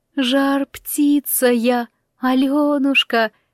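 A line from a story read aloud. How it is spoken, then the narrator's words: Thin little bird voice. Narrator (Russian): исправила птаха своим тонким голоском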